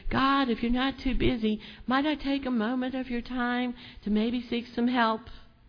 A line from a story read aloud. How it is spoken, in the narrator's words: It wasn't a little whisper